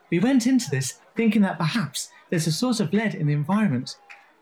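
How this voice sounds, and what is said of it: Reading a quote in a quoting voice. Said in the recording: “I'm going to put on my quoting voice now.”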